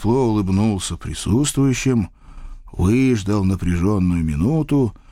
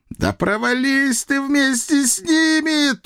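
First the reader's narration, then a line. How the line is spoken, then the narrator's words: Big man's high falsetto wail. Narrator (Russian): тонким фальцетом взвыл здоровяк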